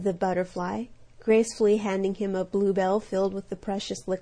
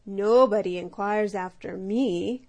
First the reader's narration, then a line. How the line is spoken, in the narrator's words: croaked the bullfrog